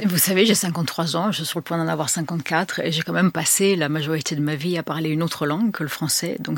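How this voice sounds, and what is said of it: French with slight American accent. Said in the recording (French): “vous avez ce petit accent américain ... quand vous parlez français ... il parle avec un tout petit accent”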